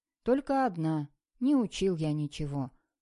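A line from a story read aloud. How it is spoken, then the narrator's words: Gloomy reply. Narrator (Russian): мрачно ответил Сережка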